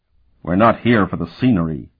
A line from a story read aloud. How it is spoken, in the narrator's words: Sparhawk growled